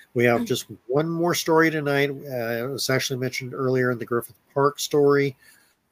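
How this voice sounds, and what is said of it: Congested voice from a cold. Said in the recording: “are we both having trouble talking tonight? ... I've got a bit of a cold. My sinuses are kind of working overdrive here, so it is hard to get the words out.”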